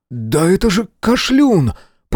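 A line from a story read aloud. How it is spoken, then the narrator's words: Astonished exclamation. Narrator (Russian): пораженно воскликнул Мэлори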